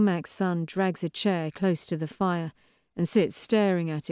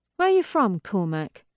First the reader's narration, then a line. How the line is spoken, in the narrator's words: He sighs